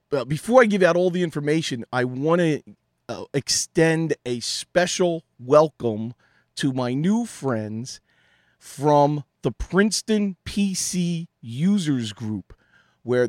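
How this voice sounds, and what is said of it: Strained, fading voice. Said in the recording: “forgive my voice tonight, losing it. I've been doing a lot of talking this week and straining the throat”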